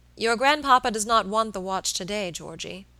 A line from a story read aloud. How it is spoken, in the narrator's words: said gravely